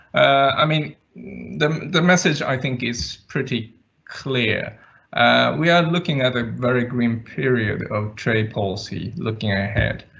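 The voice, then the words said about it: Scandinavian-Japanese continental European accent. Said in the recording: “my very idiosyncratic Scandi Japanese continental European accent”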